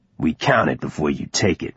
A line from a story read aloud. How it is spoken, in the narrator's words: said, his voice low, almost a growl